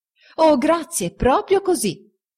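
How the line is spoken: Exclaimed. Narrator (Italian): esclamò

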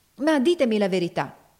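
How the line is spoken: Exclaimed. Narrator (Italian): esclamava Ophelia

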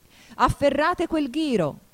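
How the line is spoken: Queen shouting. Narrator (Italian): gridò la regina

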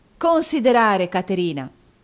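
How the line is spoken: Angry outburst. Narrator (Italian): esclamò Nicola stringendole la mano così forte nell'impeto di collera da cui era assalito

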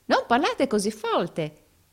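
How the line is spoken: Rehearsed exclamation. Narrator (Italian): esclamò l'altro recitando la lezione a perfezione

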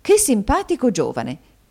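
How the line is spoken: Woman exclaiming. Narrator (Italian): esclamò la signora Kenwigs

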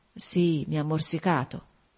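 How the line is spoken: Murmur. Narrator (Italian): mormorò

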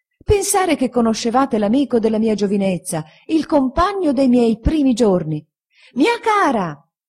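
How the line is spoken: Shouting from railing. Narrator (Italian): gridando dalla ringhiera la signora Micawber

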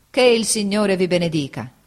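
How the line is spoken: Exclaimed. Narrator (Italian): egli esclamò

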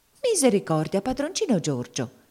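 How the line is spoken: Frightened exclamation. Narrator (Italian): esclamò spaventata la zia Chloe

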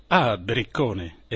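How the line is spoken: Captain exclaiming. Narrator (Italian): esclamò il capitano

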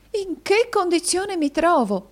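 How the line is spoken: Exclamation. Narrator (Italian): esclamò la signorina Squeers

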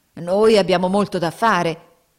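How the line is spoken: Grumbling. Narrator (Italian): brontolavano

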